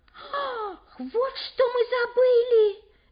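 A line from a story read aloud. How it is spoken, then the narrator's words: Shouted. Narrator (Russian): закричала староста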